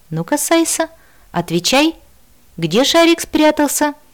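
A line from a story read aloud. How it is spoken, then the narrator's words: Cheerful exclamation. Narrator (Russian): весело воскликнул Раппу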